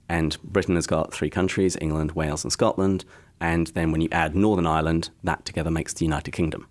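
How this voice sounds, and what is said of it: English accent. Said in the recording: “I technically have an English accent”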